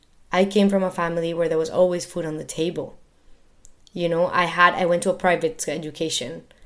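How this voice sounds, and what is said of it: Latin American accent in English. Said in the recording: “here I am seen as a Latina, and yes, I, you know, have an accent”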